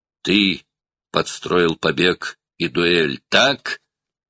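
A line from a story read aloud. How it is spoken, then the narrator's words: Growling. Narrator (Russian): прорычал Брок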